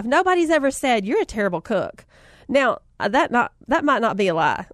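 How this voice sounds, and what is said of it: Southern American accent. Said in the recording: “she has a southern accent... She sounds just like me... do you plan to keep your accent?”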